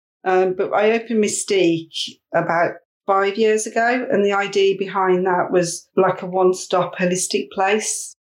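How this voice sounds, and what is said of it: West Midlands English accent. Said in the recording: “being from the West Midlands, which you can tell by my accent”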